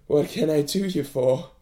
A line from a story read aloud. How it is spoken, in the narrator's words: breathed